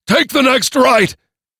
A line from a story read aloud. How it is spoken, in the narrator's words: shouted down